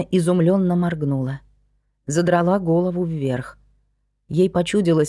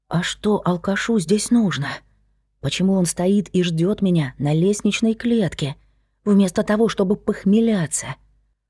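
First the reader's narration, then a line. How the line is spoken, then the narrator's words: Whisper. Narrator (Russian): прошептала она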